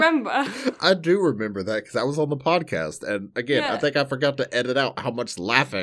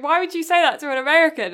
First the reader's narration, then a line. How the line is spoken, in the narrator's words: started laughing at me, going